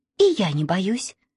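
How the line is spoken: Plain. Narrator (Russian): сказала Маша

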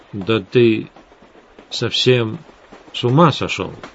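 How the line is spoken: Uncertain. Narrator (Russian): неуверенно произнес Эдгар

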